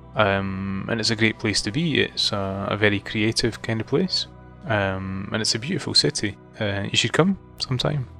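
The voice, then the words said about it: Scottish accent. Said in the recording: “I have detected a peculiarity in your manner of speech ... your accent ... I'm from Scotland ... I adore your accent”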